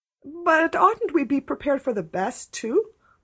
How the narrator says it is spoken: pleaded Anne

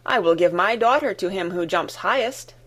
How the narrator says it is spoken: exclaimed the king

